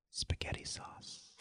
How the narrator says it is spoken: she said quietly

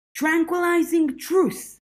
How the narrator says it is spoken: Georgia shouted

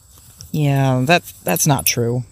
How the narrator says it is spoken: he grumbled

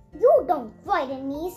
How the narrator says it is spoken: said Alice

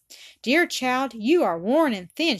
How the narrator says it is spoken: exclaimed presently, her eyes filling

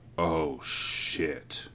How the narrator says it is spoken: Elizabeth murmur

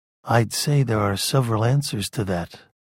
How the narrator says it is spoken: Duncan said in his soft, detached voice

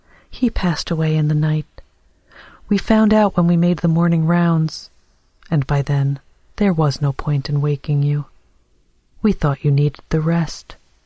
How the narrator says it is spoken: A nurse said kindly

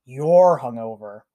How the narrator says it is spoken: Aizawa growls

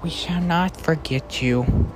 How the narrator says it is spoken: whisper

